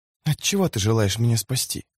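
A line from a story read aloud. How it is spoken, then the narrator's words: Whisper. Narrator (Russian): шепнула она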